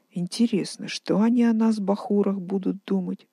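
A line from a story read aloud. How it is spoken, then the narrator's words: Sighing. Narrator (Russian): вздохнув, сказала Дина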